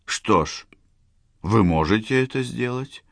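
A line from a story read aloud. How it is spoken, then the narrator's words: Completely calm. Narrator (Russian): произнесла она совершенно спокойно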